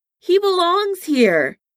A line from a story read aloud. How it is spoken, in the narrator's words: Tony yelled back